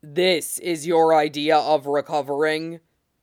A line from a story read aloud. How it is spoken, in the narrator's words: Ghost growls